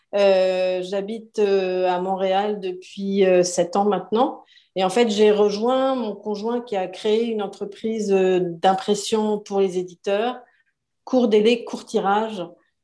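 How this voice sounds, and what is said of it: French accent from France. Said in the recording (French): “je suis française, comme mon accent le trahit”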